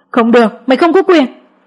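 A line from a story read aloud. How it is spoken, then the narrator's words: Desperate screaming. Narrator (Vietnamese): Mẹ chồng tôi hét lên như bà ai cướp đi kho báu của mình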